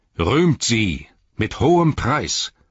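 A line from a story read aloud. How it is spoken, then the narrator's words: Resounding call. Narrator (German): rief mit hallender Stimme, so daß alle ihn hörten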